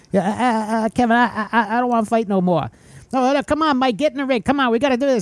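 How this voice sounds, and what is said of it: Imitates another person's voice. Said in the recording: “your Mike Tyson impersonations”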